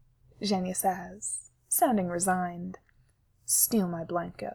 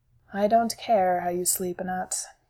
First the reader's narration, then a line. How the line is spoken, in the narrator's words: Sergei sighs